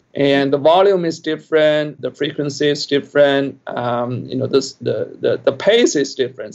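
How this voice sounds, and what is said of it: Speaks with an accent. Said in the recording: “I have my accent.”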